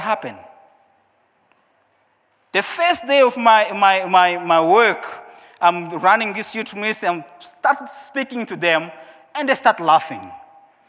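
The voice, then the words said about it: Non-native accent, broken English. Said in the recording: “they are laughing because of my accent, because of my broken English”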